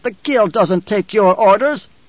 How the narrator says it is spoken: the taller of the two barked

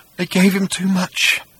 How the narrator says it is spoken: he said in a tiny whimper

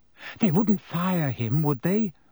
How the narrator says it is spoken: said Hermione anxiously

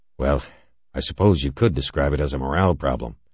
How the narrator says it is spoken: Halverson sighed

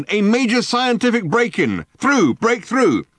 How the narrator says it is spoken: barked the megaphone

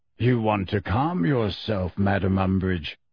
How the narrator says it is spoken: said Kingsley in his deep, slow voice

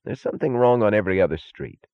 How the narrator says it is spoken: said Taggart irritably

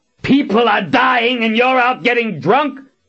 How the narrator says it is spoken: Richard roared

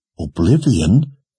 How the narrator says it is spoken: Anne gasped

